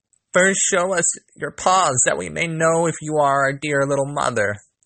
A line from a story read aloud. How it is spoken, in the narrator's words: The little kids cried